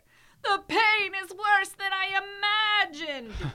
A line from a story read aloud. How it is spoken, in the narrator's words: Yeste cried